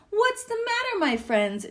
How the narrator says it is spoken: She asked kindly

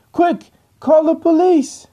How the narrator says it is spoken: the host shouts at his colleague

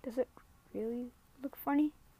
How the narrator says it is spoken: asked in an anxious voice

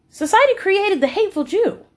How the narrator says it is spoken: Amanda exclaimed, still astounded by this revelation

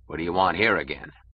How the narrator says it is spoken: asked gruffly

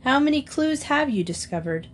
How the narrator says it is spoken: The Danes laughed

